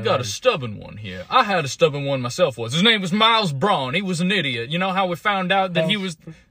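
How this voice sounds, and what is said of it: Cartoon Southern drawl. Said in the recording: “My foghorn leghorn drawl?”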